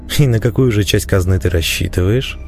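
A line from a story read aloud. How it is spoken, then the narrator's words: Outwardly calm, suppressed anger. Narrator (Russian): Внешне спокойно поинтересовался я, чувствуя, как внутри закипает злоба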